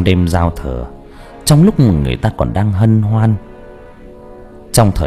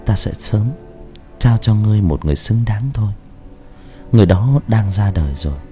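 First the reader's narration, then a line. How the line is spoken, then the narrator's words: Gentle speech. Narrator (Vietnamese): nói nhẹ nhàng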